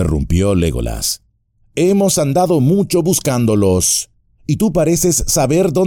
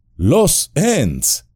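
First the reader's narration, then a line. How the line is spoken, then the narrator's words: Exclaimed. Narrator (Spanish): exclamó Aragorn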